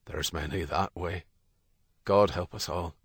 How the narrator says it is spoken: His voice sad, he said

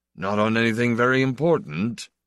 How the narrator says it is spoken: Emmanuel said dryly

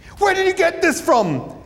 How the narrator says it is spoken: He yelled at the policeman shape

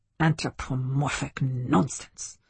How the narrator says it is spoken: muttered Zakheim

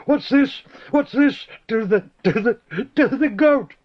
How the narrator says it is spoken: lost in laughter

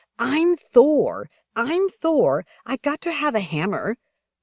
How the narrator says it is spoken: Zita screamed

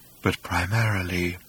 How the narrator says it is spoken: he said in his former wistful tone

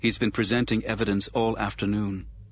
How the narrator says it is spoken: she said in a flat, effectless monotone

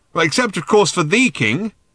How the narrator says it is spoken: shouted Ford

